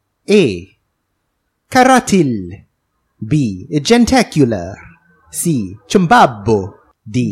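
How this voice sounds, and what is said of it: Weak put-on Italian accent. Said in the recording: “Your Italian accent is not very good.”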